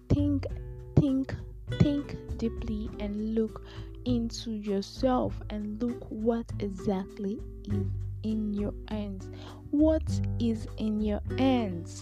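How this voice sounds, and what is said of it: Calm, soft-spoken delivery. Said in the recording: “My voice is also a bit different. I'm trying to just try out this calm person.”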